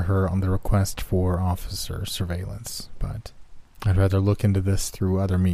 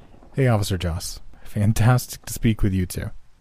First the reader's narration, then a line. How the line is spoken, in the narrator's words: I said in a slightly irritated tone